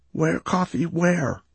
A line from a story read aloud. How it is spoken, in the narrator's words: I croaked in a tiny voice